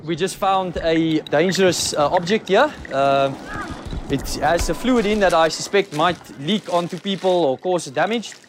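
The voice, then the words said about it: Mixed South African accent. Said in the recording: “I love his voice ... That accent, it's just so... It's a hard accent to try and impersonate because it goes, it's not like a straight New Zealand or a straight German, or, you know, it's got all these different pieces and parts in it ... It's this weird mashup ... from South Africa”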